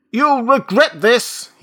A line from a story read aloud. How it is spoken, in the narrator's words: he shouted